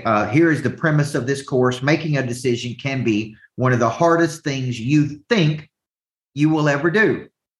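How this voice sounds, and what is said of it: Southern American accent. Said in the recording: “some people make fun of my Southern accent”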